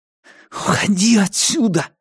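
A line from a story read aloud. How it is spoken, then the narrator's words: Furious whisper. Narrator (Russian): яростно прошептал он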